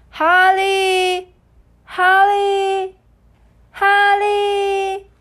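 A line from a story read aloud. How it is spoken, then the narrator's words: Someone calling a name. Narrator (Chinese): 有人在叫他的名字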